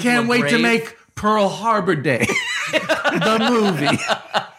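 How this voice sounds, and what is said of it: Imitates another person's voice. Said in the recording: “my terrible imitation of Paul F. Tompkins doing a great imitation of Gary Marshall”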